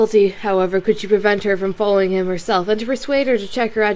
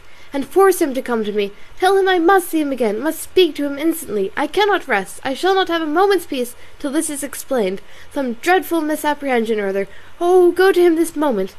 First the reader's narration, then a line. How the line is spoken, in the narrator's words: she cried, as soon as she could speak